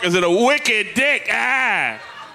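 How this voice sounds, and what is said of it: Put-on Boston accent. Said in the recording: “the accent I thought was better Bostonian than any I've ever heard”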